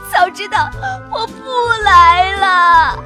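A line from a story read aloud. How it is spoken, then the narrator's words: Tearful voice. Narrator (Chinese): 小表姐带着哭腔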